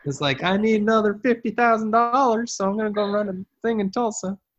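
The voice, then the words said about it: Put-on Southern accent. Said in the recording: “I gave him a southern accent”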